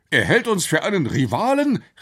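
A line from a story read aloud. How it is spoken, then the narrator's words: Professor exclaiming. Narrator (German): rief der Professor aus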